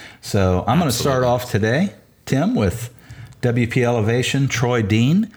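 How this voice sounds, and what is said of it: Usual voice. Nothing is said of it.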